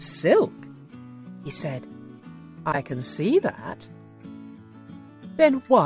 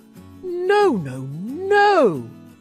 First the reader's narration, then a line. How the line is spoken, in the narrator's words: he cried